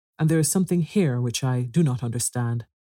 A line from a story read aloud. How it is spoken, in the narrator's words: replied the ogre, looking crossly